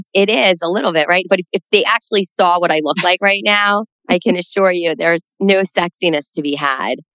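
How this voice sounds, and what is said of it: Raspy, sick-sounding voice. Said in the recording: “my raspy voice ... I now have COVID”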